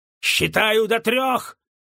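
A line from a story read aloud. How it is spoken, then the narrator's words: Barked. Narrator (Russian): рявкнул Джессоп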